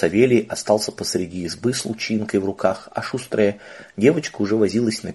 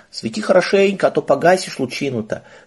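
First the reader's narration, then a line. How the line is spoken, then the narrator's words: Angry girl's shout. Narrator (Russian): сердито крикнула девочка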